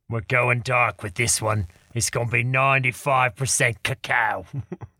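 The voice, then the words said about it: Imitates another person's voice. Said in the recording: “good Brett Goldstein impression”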